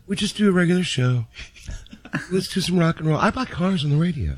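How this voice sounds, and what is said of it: Impression of John. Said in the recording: “does a great impression of John.”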